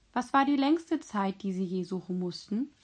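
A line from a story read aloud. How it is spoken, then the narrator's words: Plain question. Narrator (German): fragte ich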